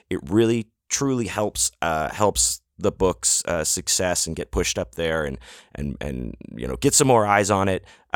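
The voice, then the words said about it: Slightly hoarse voice. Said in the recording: “my voice is a little hoarse. If it sounds sexy”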